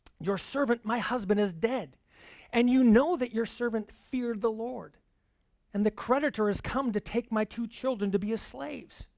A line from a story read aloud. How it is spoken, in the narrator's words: a certain woman of the wives of the sons of the prophets cried out to Elisha